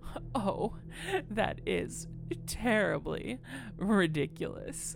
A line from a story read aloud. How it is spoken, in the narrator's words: said, giggling